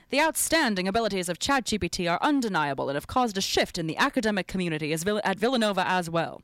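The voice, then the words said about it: Put-on 1940s transatlantic accent. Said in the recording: “Transatlantic ... It's like 1940s actor. It's like the half British, half American weird.”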